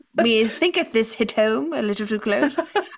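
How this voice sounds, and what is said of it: Put-on mock accent. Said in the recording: “I don't know why I did the same accent again”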